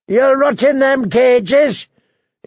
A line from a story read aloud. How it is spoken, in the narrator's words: his captor was shouting